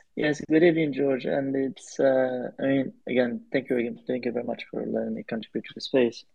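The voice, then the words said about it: French accent. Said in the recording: “we got another French guy here... or speaks a French accent anyway”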